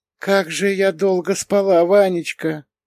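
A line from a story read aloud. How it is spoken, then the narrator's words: Quiet. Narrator (Russian): принесла она тихо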